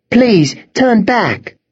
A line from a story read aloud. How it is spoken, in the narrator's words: begged Claire, kneeling before her